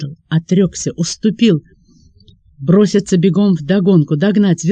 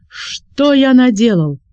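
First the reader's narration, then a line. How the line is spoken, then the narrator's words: Shout. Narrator (Russian): закричал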